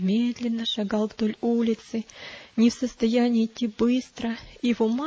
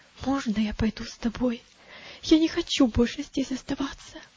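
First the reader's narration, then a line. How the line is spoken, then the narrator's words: Frightened near-whisper. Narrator (Russian): мальчик выглядел тоже очень испуганным и сказал почти шепотом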